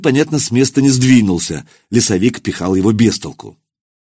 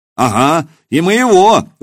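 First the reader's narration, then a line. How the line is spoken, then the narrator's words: Shout. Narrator (Russian): выкрикнул кто-то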